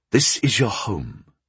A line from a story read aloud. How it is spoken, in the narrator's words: I said evenly